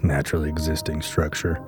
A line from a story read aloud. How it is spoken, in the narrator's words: he muttered to himself